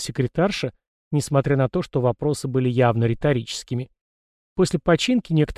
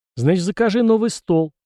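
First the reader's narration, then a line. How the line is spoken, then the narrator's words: Irritated bark. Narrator (Russian): раздраженно рявкнула Эльма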